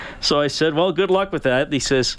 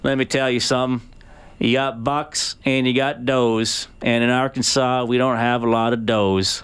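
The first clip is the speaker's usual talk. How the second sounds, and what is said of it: Put-on Arkansas accent. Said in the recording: “Love the accent, by the way. ... that's the best I could do. Usually all my accents wind up turning, it turn out exactly the same.”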